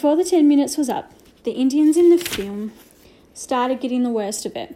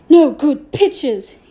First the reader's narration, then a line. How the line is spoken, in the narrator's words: shouted